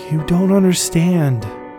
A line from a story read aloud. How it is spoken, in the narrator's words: started Chellen more softly